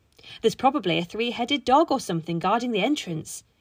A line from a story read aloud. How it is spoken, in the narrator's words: Yasmin said excitedly